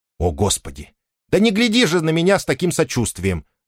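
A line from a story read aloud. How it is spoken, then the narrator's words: Barking. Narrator (Russian): рявкнула она на Дариуса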